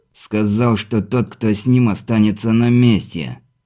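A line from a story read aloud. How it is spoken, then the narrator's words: Through gritted teeth. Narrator (Russian): сквозь зубы процедил десятник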